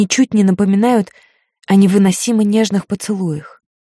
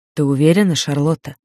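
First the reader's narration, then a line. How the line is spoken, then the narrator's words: Quiet. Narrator (Russian): негромко произносит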